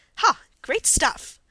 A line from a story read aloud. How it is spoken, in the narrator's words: exclaimed aloud as if involuntarily